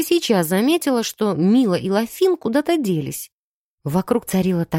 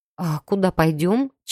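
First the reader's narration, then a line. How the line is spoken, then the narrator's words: Slightly confused mutter. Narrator (Russian): чуть растерянно пробормотала я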